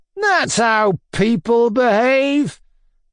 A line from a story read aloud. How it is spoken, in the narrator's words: Maslobov bawled at the top of his voice